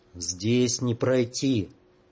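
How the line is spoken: Strange hoarse rasp. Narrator (Russian): Чужим голосом, пугая самого себя, прохрипел Иван

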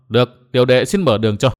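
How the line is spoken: Loud laughter. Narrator (Vietnamese): Trang Ngọc cười to

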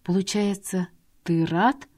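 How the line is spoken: Trembling voice. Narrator (Russian): уточнила дрогнувшим голосом

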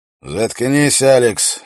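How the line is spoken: Exasperated repeated snap. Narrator (Russian): огрызнулся верховный ярл уже не в первый раз за это утро

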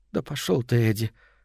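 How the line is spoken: Quiet and calm. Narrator (Russian): сказала она так тихо и спокойно

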